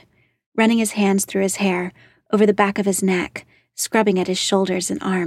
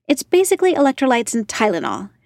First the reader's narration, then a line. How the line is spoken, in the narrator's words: she snapped